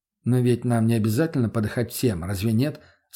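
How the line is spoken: Calm reply. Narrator (Russian): спокойно отреагировал я на ее выпад

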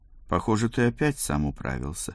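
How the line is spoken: Slightly disappointed, holding back tears. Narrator (Russian): сказала она немного разочарованным тоном, она рада и едва сдерживает слезы

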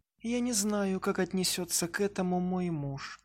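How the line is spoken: Embarrassed whisper. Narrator (Russian): смутившись от такого напора, прошептала Элизабет

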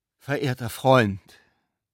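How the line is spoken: Solemn, measured exclamation. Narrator (German): rief der Besucher mit getragener Stimme aus

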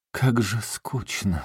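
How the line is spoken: Sighed. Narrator (Russian): вздохнула

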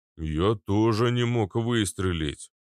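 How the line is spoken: Defensive booming. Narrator (Russian): оправдываясь, прогудел Арнольд

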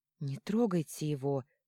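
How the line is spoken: Strained, forced out. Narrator (Russian): выдавила Леона

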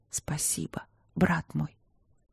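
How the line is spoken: Whisper. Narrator (Russian): прошептала

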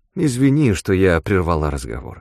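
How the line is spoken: Plain. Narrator (Russian): сказала Леонора

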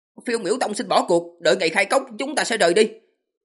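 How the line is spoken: Loud. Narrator (Vietnamese): lớn tiếng nói

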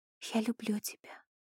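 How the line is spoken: Whispered. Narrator (Russian): прошептала я

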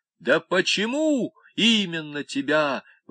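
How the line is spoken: Shouted out. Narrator (Russian): выкрикнул Клевенджер

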